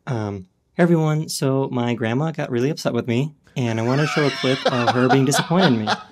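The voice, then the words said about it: Calm YouTube presenter voice. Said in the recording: “When did that voice start? ... you definitely did settle into that calmer voice”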